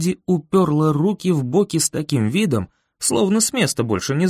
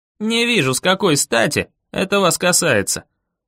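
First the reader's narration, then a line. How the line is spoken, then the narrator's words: Grumbled. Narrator (Russian): проворчал я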